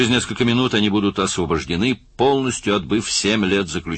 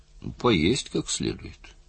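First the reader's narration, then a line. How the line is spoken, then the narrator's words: Timid, hesitant. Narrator (Russian): в нерешительности, робко ответил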